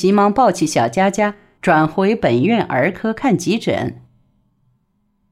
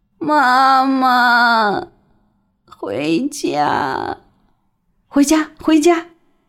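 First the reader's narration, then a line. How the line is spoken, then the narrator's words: Hoarse cry. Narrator (Chinese): 她沙哑地喊了一声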